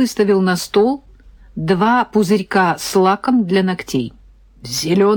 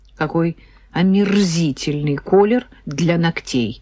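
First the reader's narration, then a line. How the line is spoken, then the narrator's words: Sighing. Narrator (Russian): вздохнула я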